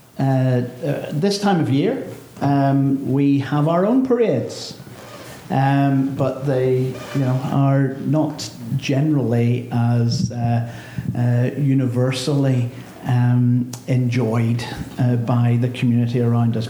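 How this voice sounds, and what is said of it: Northern Irish accent. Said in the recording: “You can tell from my accent I'm not from around here. I'm from Northern Ireland”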